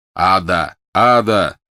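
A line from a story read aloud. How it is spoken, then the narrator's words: Yelling. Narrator (Russian): завопил он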